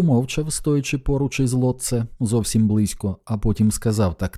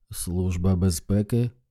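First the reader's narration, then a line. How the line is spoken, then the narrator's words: Muttering at last. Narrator (Ukrainian): пробурмотів врешті Лотце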